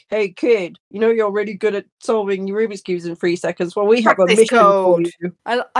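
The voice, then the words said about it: Weird official government-agent voice. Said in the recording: “your government voice. Very weird accent you sort of voice you put on to be, hi, it's us, the government.”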